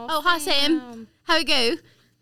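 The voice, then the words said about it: Put-on British English accent. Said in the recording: “all of a sudden have an English accent ... she has a British accent”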